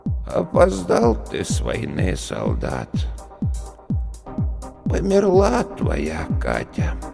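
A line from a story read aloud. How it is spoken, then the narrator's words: Cracked woman's voice. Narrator (Russian): ответила женщина надтреснутым голосом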